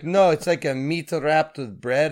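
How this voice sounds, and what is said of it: Put-on Middle Eastern accent. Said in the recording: “giving her a Middle Eastern voice ... No, the first one was good.”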